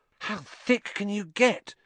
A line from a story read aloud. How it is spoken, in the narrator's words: Ron whispered ecstatically